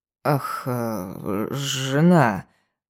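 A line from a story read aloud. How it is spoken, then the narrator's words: Drawled, surprised and thoughtful. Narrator (Russian): протянул он удивленно задумчивым тоном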